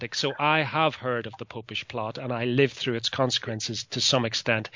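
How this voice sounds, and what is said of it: British Isles accent. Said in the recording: “you can probably hear by my accent that I am from these islands on the other side of the Atlantic”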